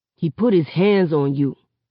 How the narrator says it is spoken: Seven snarls

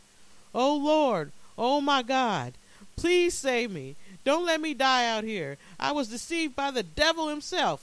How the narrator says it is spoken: cried

